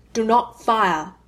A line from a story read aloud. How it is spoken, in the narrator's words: snaps, loud